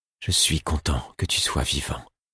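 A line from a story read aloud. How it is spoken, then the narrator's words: Murmured. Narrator (French): murmura-t-il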